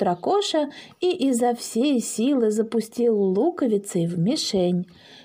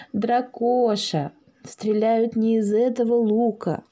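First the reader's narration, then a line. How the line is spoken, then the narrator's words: Gloomy. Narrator (Russian): мрачно сказал Паша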